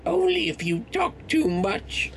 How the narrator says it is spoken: she spat

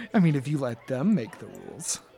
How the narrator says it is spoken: sort of laughs and says

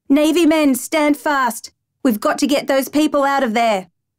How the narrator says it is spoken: Boatswain's mate Tobin ... called out

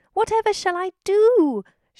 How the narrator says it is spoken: she wailed

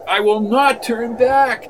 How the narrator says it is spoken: cried McGee

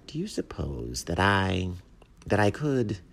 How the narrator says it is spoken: the mockingbird said warmly

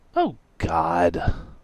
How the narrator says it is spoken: Radix groaned

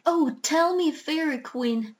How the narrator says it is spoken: cried Bumper, clasping his hands in joy

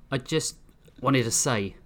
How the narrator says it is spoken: Hijoki started, his words slightly slurred

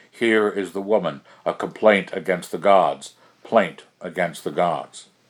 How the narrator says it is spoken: 100 echoes roared from the face of the mountain

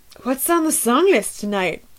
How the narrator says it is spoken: I slurred

